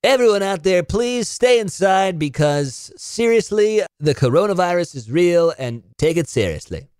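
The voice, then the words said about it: Joking radio announcer voice. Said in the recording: “I'm doing that in like kind of like my joking radio voice”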